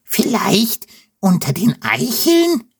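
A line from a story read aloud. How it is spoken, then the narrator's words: Squealing. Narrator (German): quiekt Wilde Wutz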